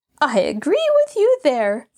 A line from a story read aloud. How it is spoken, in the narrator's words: Floretta cried feelingly